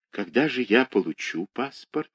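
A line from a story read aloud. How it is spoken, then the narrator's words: Quiet question. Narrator (Russian): спросила она тихо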